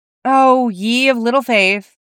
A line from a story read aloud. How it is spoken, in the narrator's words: Charlie sighed